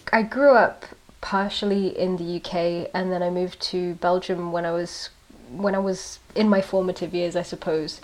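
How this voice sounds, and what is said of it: Speaks with a noticeable accent. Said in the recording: “I was wondering where your accent was from.”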